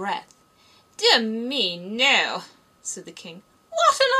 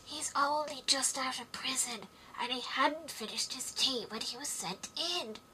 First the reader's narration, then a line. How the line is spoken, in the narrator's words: Haya whispered to Alice